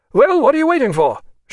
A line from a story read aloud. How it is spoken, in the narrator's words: shouted the officer